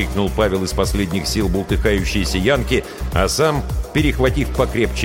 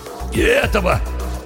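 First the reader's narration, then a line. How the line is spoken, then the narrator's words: Hoarse shout. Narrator (Russian): хрипло крикнул Пашка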